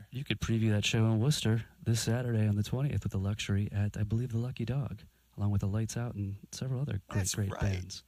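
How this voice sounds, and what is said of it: Calm, smooth NPR-style radio voice. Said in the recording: “you have this NPR voice. It's just excellent on the radio. ... It's beautiful. ... It's very calming.”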